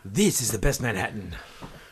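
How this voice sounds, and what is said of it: Deliberately bad put-on impression voice. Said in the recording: “Terrible, terrible impression. ... That was an impression? ... That was the Pope. ... Hispanic guy.”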